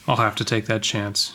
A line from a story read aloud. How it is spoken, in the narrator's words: he said grimly